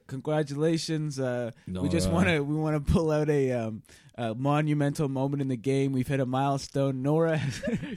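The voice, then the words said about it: Imitates another person's voice, sounds congested. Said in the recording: “Your Boston Rob just sounds like you have a cold. ... I changed to being Jeff Probst halfway through that impression.”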